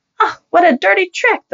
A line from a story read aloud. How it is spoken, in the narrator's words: the lady cried out, her cheeks turning red